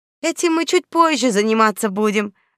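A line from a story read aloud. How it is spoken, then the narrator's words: Joyful, smiling. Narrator (Russian): Радостно заулыбалась при виде домового Светка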